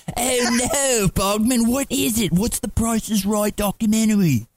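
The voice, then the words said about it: Terrible English accent, Aldous Snow impression. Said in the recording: “your Aldous Snow, your terrible Aldous Snow ... That terrible English accent”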